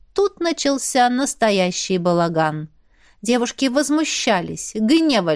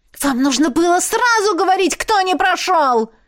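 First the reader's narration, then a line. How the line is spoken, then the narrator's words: Angry woman's shout. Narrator (Russian): Гневно выкрикнула блондинка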